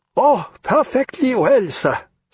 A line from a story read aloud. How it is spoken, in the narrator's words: said Jagiello, laughing